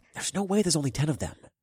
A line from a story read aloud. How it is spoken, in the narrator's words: I whispered as softly as I could